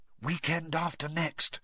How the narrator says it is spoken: whispered Hermione

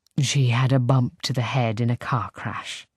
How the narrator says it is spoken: Simon murmurs

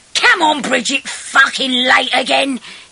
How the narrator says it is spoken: he shouted impatiently

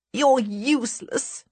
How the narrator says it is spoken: she cries

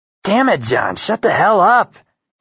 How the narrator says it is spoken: hiss

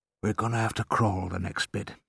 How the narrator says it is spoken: he whispered

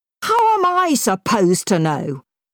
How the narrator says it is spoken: spluttered

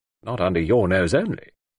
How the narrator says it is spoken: said Despard dryly

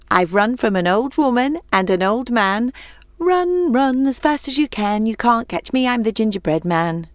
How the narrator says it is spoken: laughed and shouted over his shoulder

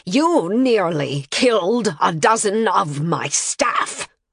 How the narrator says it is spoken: the Grand Master snarled

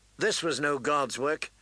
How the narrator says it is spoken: Danny said coldly

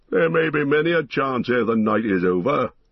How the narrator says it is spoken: laughed the dwarf

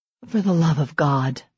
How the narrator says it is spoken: Serena muttered

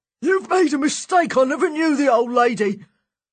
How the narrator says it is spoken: shouting

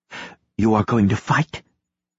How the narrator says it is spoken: whispered through a closed throat

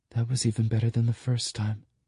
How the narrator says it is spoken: she mumbles

